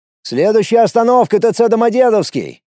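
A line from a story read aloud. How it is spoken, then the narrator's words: Calling out. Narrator (Russian): крикнул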